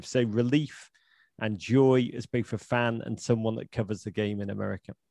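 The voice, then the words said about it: British accent. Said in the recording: “you sound British. You are British”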